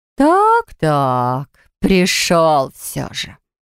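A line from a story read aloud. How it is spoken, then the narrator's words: Melodic female drawl. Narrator (Russian): протянул мелодичный женский голос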